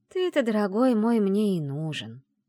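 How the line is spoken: Deceptively gentle. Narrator (Russian): обманчиво ласково проговорила я

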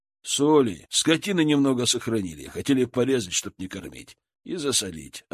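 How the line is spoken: Plain. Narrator (Russian): ответил Владимир

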